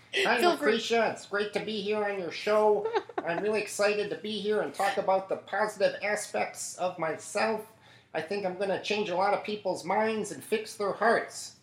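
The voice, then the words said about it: Imitates another person's voice. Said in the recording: “your David Lynch impersonation”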